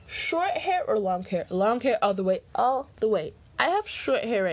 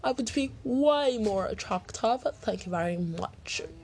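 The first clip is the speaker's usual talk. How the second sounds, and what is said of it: Attempted British accent. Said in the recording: “That was my take on a British accent.”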